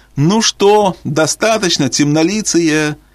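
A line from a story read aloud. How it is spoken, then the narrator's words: Giggling. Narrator (Russian): хихикали они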